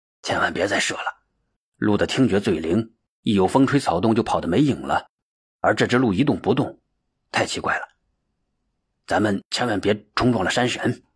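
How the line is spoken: Whispering. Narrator (Chinese): 老大悄声的说道

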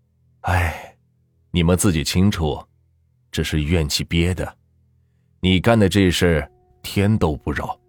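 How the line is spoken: Sighing. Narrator (Chinese): 王师傅叹了口气

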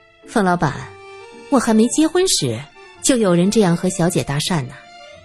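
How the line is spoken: Laughing. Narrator (Chinese): 赵清平笑道

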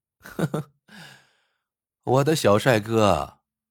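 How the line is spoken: Giggling. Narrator (Chinese): 杨云英咯咯笑道

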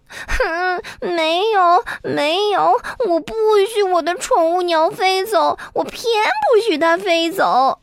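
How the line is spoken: Small creature crying. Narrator (Chinese): 小鼹鼠哭了，说

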